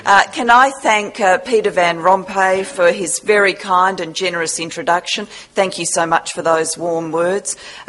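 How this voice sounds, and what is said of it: Australian English accent. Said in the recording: “It takes a bit of courage to bring an Australian here to deliver a lecture... please do your best to decode the accent.”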